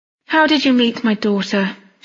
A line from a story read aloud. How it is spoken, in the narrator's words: said wearily